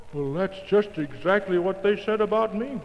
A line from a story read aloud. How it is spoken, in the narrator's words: groaned Boomer